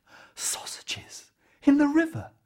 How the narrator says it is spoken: The farmer's wife gasped

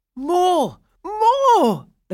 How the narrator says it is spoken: the boys cried out

